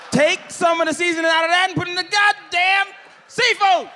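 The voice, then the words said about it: Screaming. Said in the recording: “sorry for screaming.”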